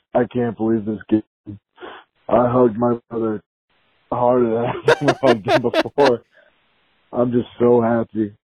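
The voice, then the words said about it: Hoarse, nearly lost voice. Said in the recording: “I lost my voice.”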